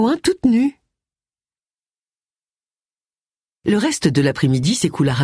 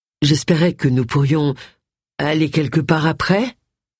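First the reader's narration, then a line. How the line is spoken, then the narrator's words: Hesitant tone. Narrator (French): dit-il d'un ton hésitant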